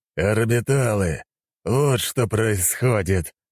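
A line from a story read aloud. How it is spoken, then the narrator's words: Furious growl. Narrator (Russian): прорычал я, испытывая невероятную злость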